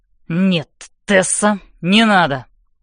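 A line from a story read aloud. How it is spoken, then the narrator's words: Sharp speech. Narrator (Russian): резко говорит он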